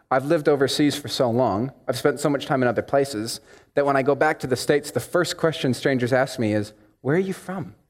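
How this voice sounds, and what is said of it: Strong American accent. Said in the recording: “here my accent sounds blazingly, harshly American”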